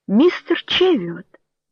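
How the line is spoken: Tender calling. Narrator (Russian): нежным голосом позвала она

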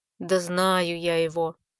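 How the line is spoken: Grumbled mutter. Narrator (Russian): пробурчал

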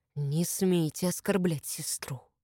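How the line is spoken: Hissing. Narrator (Russian): прошипел он

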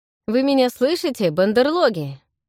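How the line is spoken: Mocking snort. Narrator (Russian): хмыкнул Рентон

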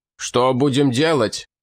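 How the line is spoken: Count shouting. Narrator (Russian): выкрикнул граф

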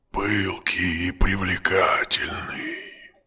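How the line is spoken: Whisper. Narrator (Russian): прошептал он

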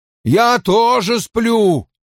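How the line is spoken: Nearly shouting. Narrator (Russian): почти выкрикнул голый мужчина

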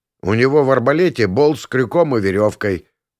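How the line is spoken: Muttered. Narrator (Russian): пробурчал я

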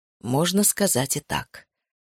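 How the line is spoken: Calm confirmation. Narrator (Russian): спокойно подтвердил

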